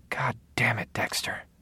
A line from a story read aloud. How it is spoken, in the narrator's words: she said softly